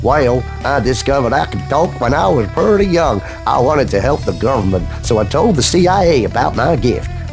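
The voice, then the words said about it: Put-on Tennessee accent. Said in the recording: “he's from Tennessee, Tony. I'm going to try and do the accent here.”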